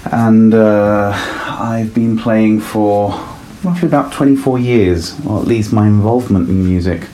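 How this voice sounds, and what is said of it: Italian-born north London accent. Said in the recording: “I was born in Italy, but I grew up in north of London. That's the reason behind the accent.”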